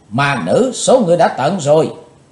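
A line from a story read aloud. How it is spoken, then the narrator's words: Two girls' shrill shout in unison. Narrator (Vietnamese): Hai thiếu nữ dẫn cung trang đồng thanh hét lên lanh lảnh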